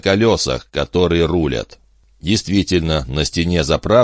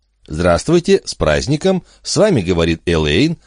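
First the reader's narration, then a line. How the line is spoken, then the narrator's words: Cheerful chirping. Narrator (Russian): радостно прощебетала телефонистка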